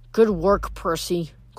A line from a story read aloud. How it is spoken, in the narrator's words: Clarice muttered